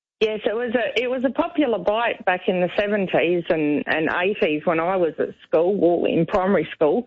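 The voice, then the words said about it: Adelaide Australian accent. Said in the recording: “you sound like you've got a little bit of a New Zealand accent... no, that's the Adelaide accent. That's an Adelaide accent, isn't it?”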